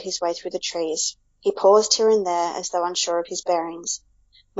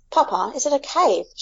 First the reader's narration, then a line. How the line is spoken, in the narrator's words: exclaimed